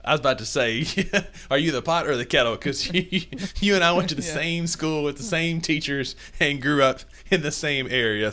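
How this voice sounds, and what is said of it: Rural country Southern accent. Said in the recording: “my sad country accent ... your accent cannot be fixed ... that Kossuth accent”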